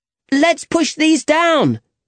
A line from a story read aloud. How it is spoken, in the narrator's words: cried Joaquin